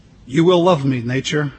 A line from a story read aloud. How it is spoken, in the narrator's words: God said